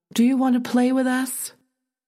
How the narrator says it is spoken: Mary, a lone figure on the path, called out

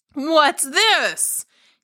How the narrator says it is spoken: He cried

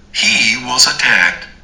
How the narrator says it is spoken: yelled out one of the tenants

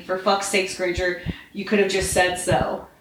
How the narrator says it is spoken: opened stiffly

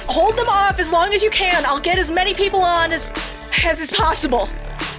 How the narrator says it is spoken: her eyes widen and she shouts

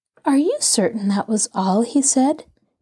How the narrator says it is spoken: Nancy inquired gently

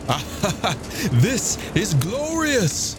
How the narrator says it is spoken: shouted Siegfried, plunging eagerly onwards and laughing

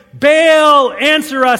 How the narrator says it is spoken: guys shouting

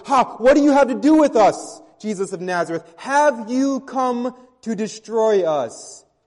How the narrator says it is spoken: the demon in the man cried out and says

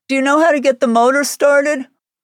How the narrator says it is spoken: Wolf called out

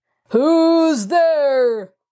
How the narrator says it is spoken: bellowed so loudly that the sound rang down the long hall

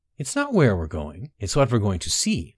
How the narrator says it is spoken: replied Beinara

